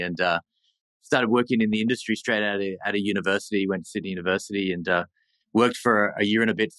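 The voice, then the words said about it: Australian accent. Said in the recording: “as you can tell from my accent, I'm from ... a little further south. So I grew up in Sydney”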